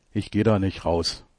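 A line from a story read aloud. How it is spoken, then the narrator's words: Plain. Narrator (German): sagt er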